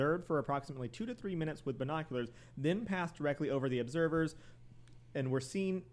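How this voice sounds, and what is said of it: Usual voice. Nothing is said of it.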